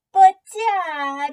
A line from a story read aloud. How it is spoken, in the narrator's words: Willie whined